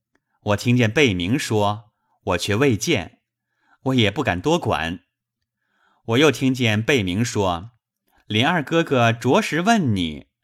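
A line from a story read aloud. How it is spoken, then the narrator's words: Laughing. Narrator (Chinese): 宝玉笑道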